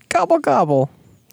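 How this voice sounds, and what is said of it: Imitates a turkey gobbling. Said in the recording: “best turkey impression”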